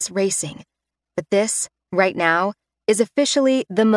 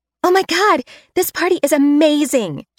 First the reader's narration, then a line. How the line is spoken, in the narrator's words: she gasps